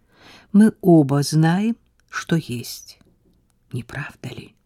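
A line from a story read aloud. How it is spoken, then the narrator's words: Quiet, tender. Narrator (Russian): Тихо проговорил он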